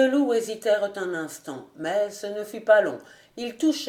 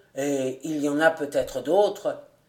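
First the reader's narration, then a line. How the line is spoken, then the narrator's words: Grumbled. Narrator (French): grommela l'un d'eux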